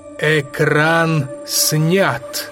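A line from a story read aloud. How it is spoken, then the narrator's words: Ringing exclamation, echoed. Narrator (Russian): Звучным голосом воскликнул Тырианин, и эхом откликнулась его жена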